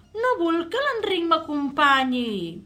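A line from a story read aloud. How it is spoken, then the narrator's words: Protesting. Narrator (Catalan): va protestar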